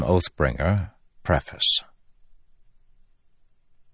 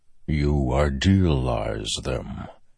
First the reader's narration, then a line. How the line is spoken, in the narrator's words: said a distant voice in his head, like rumbling thunder